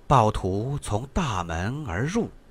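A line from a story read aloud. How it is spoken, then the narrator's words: Soft reading aloud. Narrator (Chinese): 陆子婉 把这句话轻声的念了一遍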